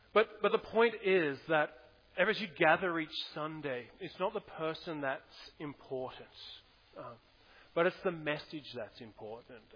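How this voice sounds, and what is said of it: Australian accent. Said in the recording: “He's got the Australian accent. I can't understand him.”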